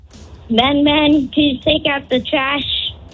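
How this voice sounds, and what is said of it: Child imitating his mother's nagging voice. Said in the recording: “do an impression of your mom and the annoying stuff that she says”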